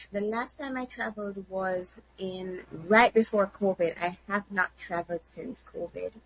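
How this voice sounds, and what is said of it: Noticeable accent. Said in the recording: “your accent is a dead giveaway”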